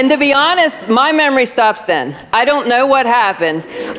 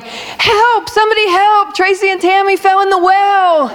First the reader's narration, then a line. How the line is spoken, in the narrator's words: Her friend goes running to the bleachers yelling